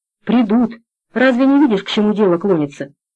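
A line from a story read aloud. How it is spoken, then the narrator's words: Heavy sigh. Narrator (Russian): Гавличек тяжело вздохнул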